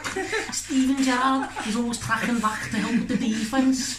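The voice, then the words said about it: Put-on Liverpool accent. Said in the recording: “How do you do a Liverpool accent? ... the Liverpool, Liverpudlian impressions”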